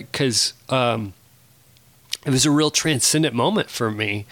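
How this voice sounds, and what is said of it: Choked-up, emotional voice. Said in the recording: “getting choked up a little bit right now”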